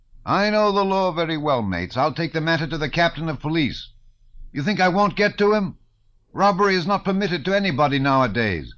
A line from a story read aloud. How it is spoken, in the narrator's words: shouted the publican